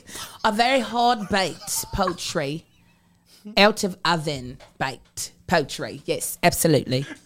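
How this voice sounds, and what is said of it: Put-on English accent. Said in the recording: “switching to an English accent”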